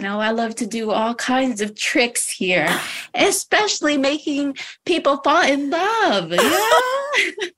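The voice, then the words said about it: Mystical TikToker character voice. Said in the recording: “your TikToker impersonation of a woo-woo”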